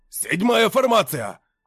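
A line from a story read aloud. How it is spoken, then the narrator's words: Shouted. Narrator (Russian): крикнул Барий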